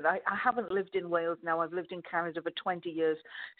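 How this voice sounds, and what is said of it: Softened Welsh accent. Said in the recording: “this is an approximation of a Welsh accent ... it's got a few of the edges and the knocked off it ... the peaks are a bit lower and the valleys are a little higher, but this is essentially a Welsh accent”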